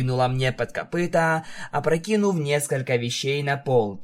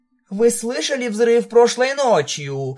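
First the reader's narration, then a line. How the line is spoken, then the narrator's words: Exclaimed. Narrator (Russian): воскликнула Бьюти Брас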